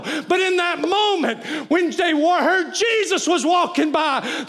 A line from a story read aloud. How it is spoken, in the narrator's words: they cried out, and the crowd said